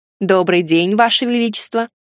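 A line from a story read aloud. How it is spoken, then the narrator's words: Sarcastic remark. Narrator (Russian): ехидно заметил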